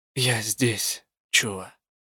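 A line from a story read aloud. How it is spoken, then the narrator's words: Quiet. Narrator (Russian): негромко сказала я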